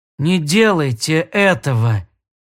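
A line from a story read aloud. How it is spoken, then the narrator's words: Moaning over headset. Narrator (Russian): простонал Анжела в шлемофон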